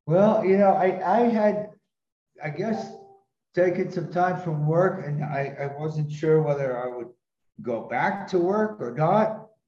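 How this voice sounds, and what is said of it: American accent. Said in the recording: “you're an American by birth, aren't you? ... By your accent.”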